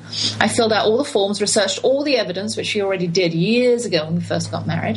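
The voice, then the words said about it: British accent. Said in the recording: “my British identity and rights and my accent”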